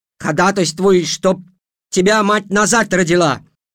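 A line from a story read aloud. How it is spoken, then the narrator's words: Shouting. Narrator (Russian): закричала Эйжел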